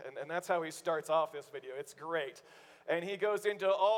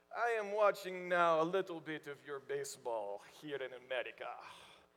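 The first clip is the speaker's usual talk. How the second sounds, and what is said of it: Put-on German accent, broken English. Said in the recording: “German accent, broken English”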